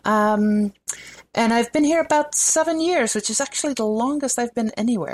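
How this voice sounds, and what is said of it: Dutch accent with slight Southern. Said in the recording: “people will notice an accent. ... I'm originally from the Netherlands ... you may also occasionally hear a little bit of Southern creeping in because I grew up in Atlanta”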